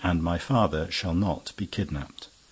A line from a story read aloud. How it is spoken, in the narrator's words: added calmly